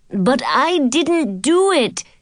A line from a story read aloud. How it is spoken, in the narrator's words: Gunther cried